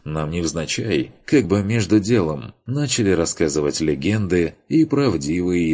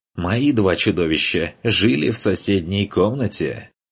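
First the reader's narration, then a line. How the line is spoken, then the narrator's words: Laughing reply. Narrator (Russian): засмеялся помощник в ответ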